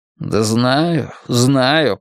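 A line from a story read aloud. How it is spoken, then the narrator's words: Grumbling. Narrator (Russian): проворчал Крамли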